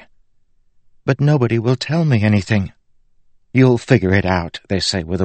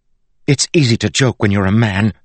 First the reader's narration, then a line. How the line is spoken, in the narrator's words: she snapped